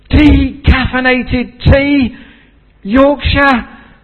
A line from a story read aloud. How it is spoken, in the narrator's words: exclaimed